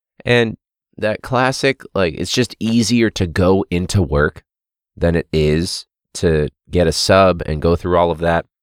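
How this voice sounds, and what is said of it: Sick, slightly altered voice. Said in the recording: “my voice sounds a little bit different. I've been sick since Friday of last week.”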